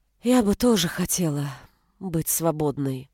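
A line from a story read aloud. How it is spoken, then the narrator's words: Sad sigh. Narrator (Russian): грустно вздохнула Анита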